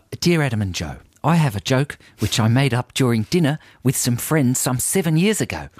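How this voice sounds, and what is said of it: Put-on New Zealand accent. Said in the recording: “you should read it out in your New Zealand ... accent ... I do a very good New Zealand ... accent ... it's totally distinct from my Australian accent”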